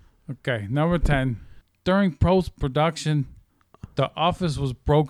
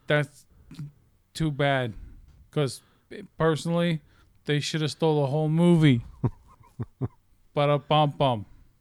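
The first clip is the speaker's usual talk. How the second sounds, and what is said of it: Put-on US East Coast accent. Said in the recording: “sometimes I sound like my uncles from the East Coast”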